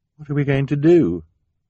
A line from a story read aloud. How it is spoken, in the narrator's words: Sunny said miserably